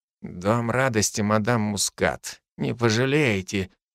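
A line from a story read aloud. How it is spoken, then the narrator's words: Quiet. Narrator (Russian): тихо сообщил водитель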